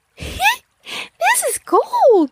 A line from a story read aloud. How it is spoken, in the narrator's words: She squealed